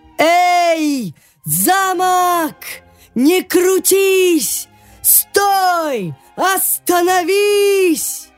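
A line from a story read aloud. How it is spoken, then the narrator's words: Small strongman shouting. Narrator (Russian): Маленький силач крикнул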